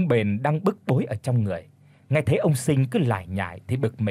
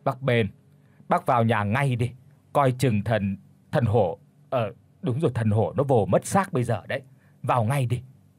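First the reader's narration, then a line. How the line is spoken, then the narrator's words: Frightened stammer. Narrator (Vietnamese): Ông Sinh tái mặt lắp bắp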